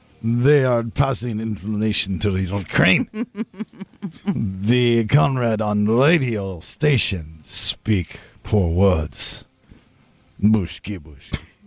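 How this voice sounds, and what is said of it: Mock Russian accent. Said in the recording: “I told you Russia didn't like that accent you used. You can't say bushki bushki.”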